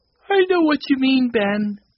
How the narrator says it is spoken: said Mike, yawning

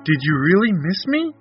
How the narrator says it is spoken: eagerly replied

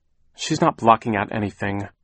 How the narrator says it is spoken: Klaus said crossly

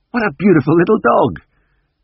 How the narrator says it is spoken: I exclaimed quite spontaneously

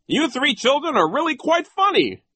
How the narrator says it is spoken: Nero cried

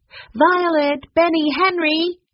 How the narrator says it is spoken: called out

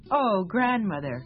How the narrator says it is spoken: Little Bear laughed

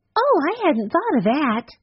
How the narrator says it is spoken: Violet exclaimed

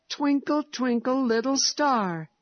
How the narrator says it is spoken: he cried in delight

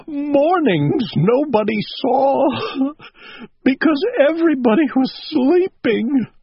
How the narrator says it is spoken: sobbed Owl

